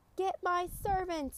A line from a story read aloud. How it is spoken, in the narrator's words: he shouted